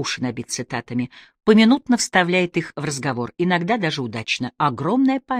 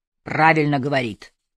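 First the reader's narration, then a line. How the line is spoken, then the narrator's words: Deep bass approval. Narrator (Russian): крупным басом одобрил Спивак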